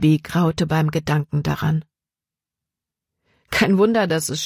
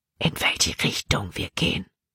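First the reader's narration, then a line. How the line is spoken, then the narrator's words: Whispering. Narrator (German): flüsterte Jordan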